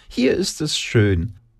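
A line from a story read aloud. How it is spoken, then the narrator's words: Squeaky, high voice. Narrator (German): piepste sie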